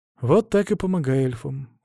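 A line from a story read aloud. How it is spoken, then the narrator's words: Sighed. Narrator (Russian): вздохнул я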